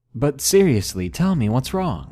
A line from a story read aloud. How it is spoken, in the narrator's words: I awkwardly laughed and said nervously